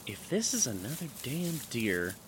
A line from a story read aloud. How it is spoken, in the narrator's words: muttered to myself